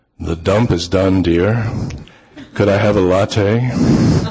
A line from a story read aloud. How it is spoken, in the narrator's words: she and I say, in my deepest voice